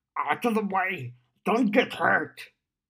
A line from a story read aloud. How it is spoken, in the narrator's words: Gashwad growled